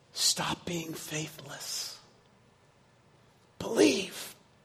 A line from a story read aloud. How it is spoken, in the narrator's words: he whispers in his ear